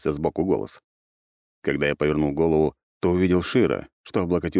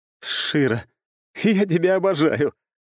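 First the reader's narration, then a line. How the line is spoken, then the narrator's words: Sudden light laughter. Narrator (Russian): внезапно рассмеялся я, а на душе стало как-то легко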